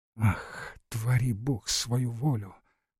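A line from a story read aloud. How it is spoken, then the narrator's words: General's wife whispering. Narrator (Russian): прошептала генеральша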